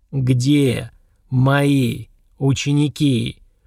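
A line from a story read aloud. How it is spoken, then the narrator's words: Growled word by word, echoing. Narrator (Russian): Выделяя каждое слово, прорычал я, отчего по стенам помещения заиграло эхо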